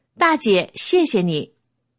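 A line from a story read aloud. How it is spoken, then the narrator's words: Several people calling out. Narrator (Chinese): 那几个人边上车边朝我喊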